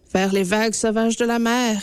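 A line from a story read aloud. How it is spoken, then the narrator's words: Plain. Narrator (French): répondit-elle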